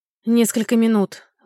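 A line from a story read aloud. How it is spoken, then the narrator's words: Sigh. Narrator (Russian): вздохнул Иллиан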